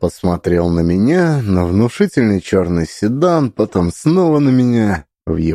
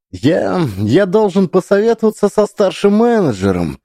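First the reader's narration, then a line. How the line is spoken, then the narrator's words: Babbling mumble. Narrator (Russian): пролепетал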